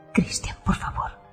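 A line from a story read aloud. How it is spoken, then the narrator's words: Whispered. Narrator (Spanish): susurro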